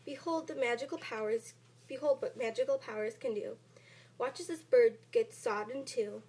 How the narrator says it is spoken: He cried

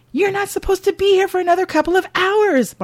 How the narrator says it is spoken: Margot gasps in between frantic breaths

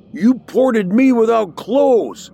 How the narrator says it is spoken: he screaming

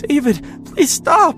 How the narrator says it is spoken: she screeched in terror as she ran, horrified out of her mind

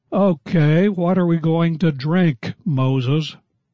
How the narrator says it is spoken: the people grumbled at Moses, saying

